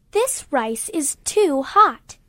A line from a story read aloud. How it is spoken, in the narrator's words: she exclaimed